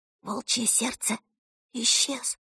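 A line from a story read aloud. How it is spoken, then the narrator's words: Whisper. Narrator (Russian): шепнула она Ворсу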